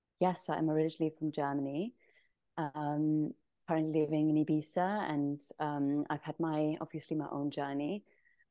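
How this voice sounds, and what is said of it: Lovely foreign accent. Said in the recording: “you have this lovely accent”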